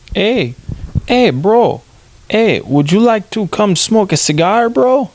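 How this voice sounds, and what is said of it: Put-on Cuban accent. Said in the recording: “I don't know if I can do a Cuban accent”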